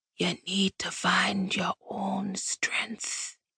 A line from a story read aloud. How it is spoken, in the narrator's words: he rasped, his voice as weak as his image